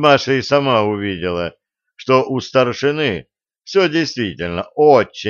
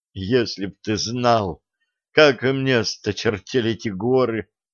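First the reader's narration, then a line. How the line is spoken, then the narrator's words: Sobbing. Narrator (Russian): всхлипнула Маша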